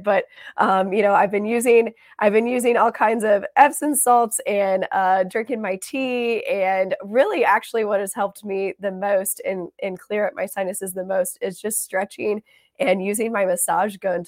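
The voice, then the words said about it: Hoarse, strained voice. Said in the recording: “You can hear I'm kind of losing my voice a little bit”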